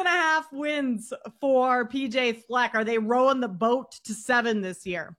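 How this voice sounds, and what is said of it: Usual voice. Nothing is said of it.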